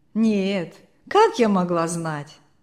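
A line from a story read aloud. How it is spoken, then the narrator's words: Laughing. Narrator (Russian): засмеялась бабушка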